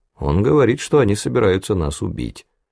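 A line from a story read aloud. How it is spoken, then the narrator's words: Gloomy reply. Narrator (Russian): мрачно отвечал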